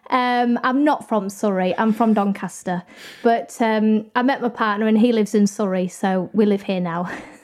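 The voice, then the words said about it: Posh English accent. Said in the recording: “I know I sound very posh.”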